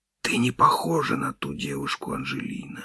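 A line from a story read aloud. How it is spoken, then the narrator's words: Whisper. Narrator (Russian): шептал я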